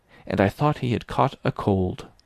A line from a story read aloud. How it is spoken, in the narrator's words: Verloc muttered at the wall